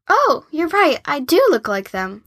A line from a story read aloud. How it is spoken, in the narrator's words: Cabbie exclaimed